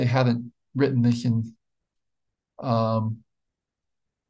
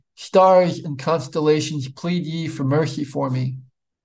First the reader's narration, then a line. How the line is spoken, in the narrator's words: He exclaimed